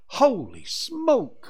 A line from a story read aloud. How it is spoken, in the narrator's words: Matt exclaimed